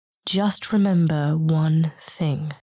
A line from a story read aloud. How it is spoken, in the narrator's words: Antares said slowly